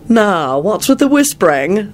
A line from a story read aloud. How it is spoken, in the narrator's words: Malfoy said impatiently